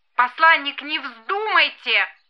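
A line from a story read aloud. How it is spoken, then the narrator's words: Squeaky headset speaker. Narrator (Russian): пискнул динамик в шлемофоне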